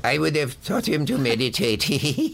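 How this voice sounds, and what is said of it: Imitates another person's voice. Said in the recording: “That's an exact imitation. ... It's not as good as my imitation of James Mason, but it's pretty good.”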